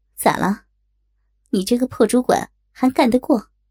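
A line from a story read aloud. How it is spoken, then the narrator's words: Scornful, sarcastic. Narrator (Chinese): 丽姐先是不屑的冷笑了一下，然后带着讽刺的口吻说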